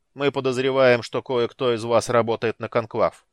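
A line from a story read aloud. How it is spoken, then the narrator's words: Deep bass voice. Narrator (Russian): пробасил Слит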